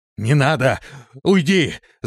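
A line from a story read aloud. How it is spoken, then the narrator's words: Several voices shouting. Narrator (Russian): закричали они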